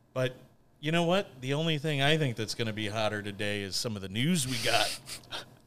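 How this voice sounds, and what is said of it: Radio DJ announcer voice. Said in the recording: “I've been practicing my DJ voice”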